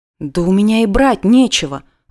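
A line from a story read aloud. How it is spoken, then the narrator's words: Timid objection. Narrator (Russian): робко возразила я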